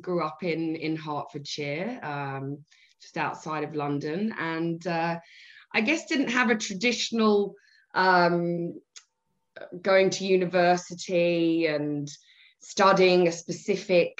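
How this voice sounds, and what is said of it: British English accent. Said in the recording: “originally from the UK, as you can probably tell from the accent”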